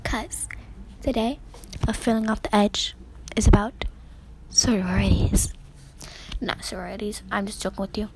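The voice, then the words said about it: Whispering. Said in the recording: “I'm whispering,”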